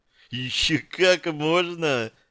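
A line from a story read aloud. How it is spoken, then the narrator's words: Laughing. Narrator (Russian): рассмеялась она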